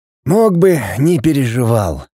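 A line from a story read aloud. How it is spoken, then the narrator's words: Sighing. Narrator (Russian): Лин вздохнул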